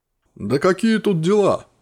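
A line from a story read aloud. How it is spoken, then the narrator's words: Wry snort. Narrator (Russian): хмыкнул артефакт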